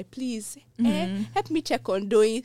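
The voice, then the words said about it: Put-on African accent. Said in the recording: “my African accent just went”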